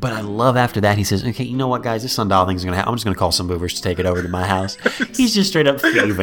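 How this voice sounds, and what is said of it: Usual voice. Nothing is said of it.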